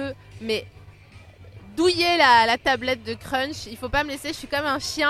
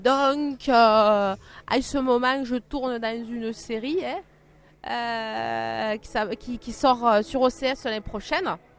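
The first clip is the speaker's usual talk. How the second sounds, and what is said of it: Weak put-on southern French accent. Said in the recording (French): “tu vas devoir nous dire tes actualités avec ce fameux accent du sud ... je le fais très mal”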